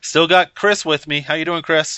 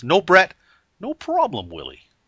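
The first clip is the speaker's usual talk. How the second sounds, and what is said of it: Imitates Alf character voice. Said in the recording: “That's not my best Alf impression”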